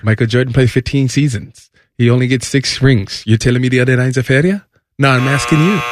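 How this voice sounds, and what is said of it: Imitates another person's voice. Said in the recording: “doing a Giannis impression”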